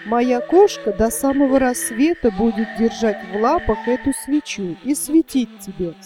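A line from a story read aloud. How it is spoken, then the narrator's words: Plain. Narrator (Russian): сказала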